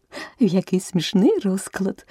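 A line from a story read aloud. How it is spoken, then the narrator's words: Exclaiming. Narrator (Ukrainian): вигукнула Аліса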